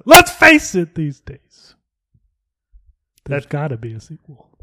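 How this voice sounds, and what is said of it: Impression of Stu. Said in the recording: “trying to do a Stu impersonation ... Dana told me I was doing a bad job, but I thought I was like nailing it”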